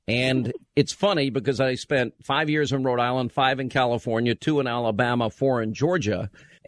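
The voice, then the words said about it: Long Island New York accent. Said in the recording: “it comes out as Linda because you're from Long Island ... I'll tell you when my accent comes out more is when I'm tired ... lessening the accent that I know that I have ... everybody calls this program and says I talk funny”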